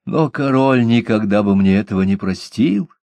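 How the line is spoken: Timid. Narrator (Russian): робко закончил

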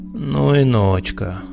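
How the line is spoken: Drawled. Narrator (Russian): протянул Снегирев

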